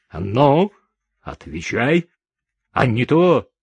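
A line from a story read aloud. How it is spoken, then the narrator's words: Menacing command. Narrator (Russian): Курт грозно приказал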